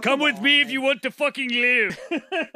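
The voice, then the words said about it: Bad Arnold Schwarzenegger impression. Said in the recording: “You sound like Arnold Schwarzenegger ... That was pretty bad.”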